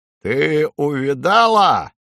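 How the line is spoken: Barked. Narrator (Russian): гаркнул грач

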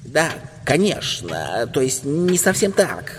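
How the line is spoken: Flustered mumbling. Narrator (Russian): забормотал дядя

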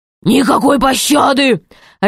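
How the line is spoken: Barking king. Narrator (Russian): рявкнул король

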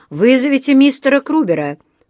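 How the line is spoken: Distant shout. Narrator (Russian): крикнул кто-то в дальнем конце зала

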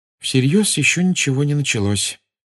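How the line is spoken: Gloomy sigh. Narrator (Russian): мрачно вздохнула Гермиона

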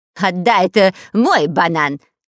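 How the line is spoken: Shouting. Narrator (Russian): кричал шпион Дырка

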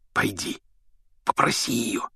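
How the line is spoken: Whisper. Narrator (Russian): шепнул Рон

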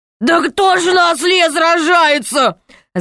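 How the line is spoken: Laughing. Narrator (Russian): захохотал король

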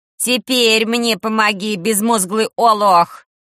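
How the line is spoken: Sharp bark. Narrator (Russian): рявкнула тетушка Манефа

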